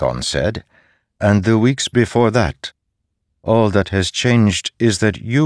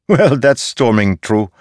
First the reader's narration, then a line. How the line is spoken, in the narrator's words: Sigzil said, laughing